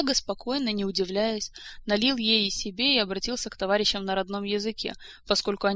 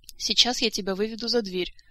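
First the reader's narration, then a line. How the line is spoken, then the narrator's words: Calm tone. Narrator (Russian): сказал Диего все тем же спокойным тоном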